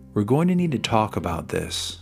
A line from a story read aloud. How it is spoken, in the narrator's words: he said sternly